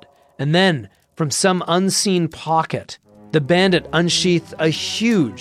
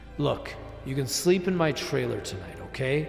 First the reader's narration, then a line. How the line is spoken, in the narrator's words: said Francois